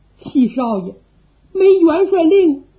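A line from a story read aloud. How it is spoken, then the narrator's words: Shouting downward. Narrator (Chinese): 冲着下边喊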